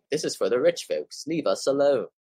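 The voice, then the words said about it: Briefly speaks in a put-on accent. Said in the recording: “I don't know why I say it in that accent”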